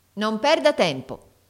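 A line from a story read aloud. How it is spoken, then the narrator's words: Harsh, stern voice. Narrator (Italian): tornò a dire con tono più duro la portinaia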